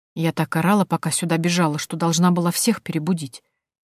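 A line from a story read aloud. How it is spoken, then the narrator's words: Thoughtful whisper. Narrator (Russian): задумчиво и почему-то шепотом говорила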